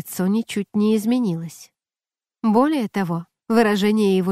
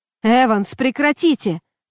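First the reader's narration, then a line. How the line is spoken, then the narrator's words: Shout. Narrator (Russian): крикнул Бесподобный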